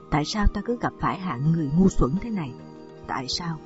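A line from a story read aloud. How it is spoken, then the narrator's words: Sighing, wry laugh, asking. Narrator (Vietnamese): thở dài nhăn nhó cười hỏi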